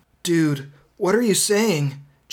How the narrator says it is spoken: Jason whimpered, starting to feel scared

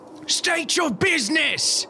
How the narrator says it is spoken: These people, they shout down

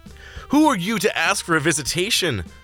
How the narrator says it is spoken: the one guard snarled, with disdain

